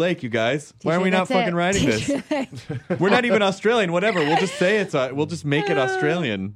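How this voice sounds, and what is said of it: Usual voice. Nothing is said of it.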